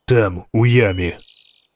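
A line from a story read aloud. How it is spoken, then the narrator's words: Calm. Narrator (Ukrainian): сказав він спокійно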